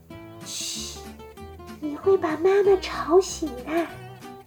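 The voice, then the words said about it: Whispered line. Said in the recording (Chinese): “小声说道”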